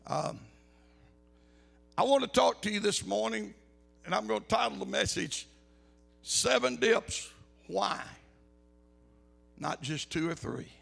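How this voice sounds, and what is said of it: Raspy voice. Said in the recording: “Please forgive my raspy voice.”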